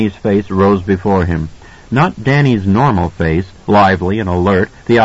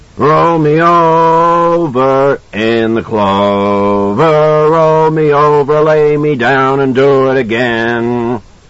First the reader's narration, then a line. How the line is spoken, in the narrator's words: began to bellow